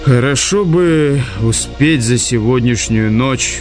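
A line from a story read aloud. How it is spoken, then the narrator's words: Sigh. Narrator (Russian): вздохнул он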